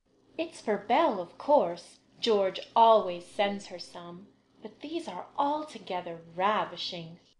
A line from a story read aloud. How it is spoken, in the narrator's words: cried Annie, with a great sniff